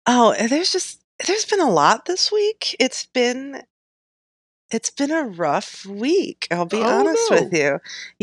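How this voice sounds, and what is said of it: Congested, low-energy voice. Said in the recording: “my voice sounds kind of weird. I'm having like some sinus stuff.”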